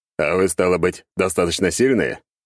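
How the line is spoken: Snort. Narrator (Russian): Я хмыкнул

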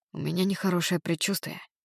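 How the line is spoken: Whisper. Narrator (Russian): прошептал он

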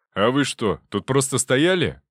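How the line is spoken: Barked. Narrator (Russian): гаркнул

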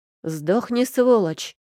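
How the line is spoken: Sharp bark. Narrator (Russian): рявкнул Нельс

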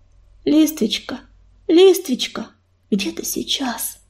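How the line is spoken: Deep purring voice. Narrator (Russian): знакомым басовитым мурлыканьем

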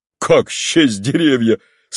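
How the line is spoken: Laughing, coaxing. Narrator (Russian): смеясь сказал Степан Аркадьич, все желая вывести приятеля из его дурного расположения духа

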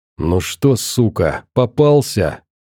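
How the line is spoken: Hissed through teeth. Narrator (Russian): сквозь зубы прошипел я

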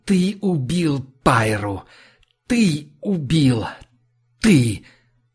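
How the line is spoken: Furious hiss. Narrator (Russian): он прошипел в лицо

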